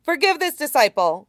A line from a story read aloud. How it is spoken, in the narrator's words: Jingyi shouts